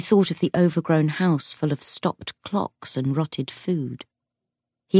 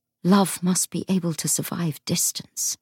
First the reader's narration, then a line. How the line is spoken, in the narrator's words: he said as gently as he could